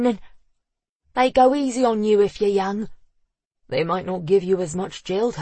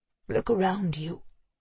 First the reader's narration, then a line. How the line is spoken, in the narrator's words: Neil said, his voice hoarse from emotion